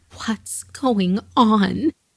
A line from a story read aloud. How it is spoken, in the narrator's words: begged to know